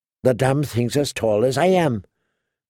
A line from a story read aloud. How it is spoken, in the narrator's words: Tyrion muttered in a low voice